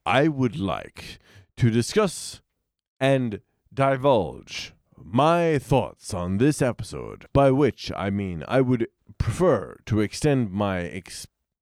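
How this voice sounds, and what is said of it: Pompous radio announcer voice. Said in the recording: “I'm working my Richard Moorcroft ... It's pretty good ... there's a certain arc on your drunkenness where you hit like really great radio announcer voice”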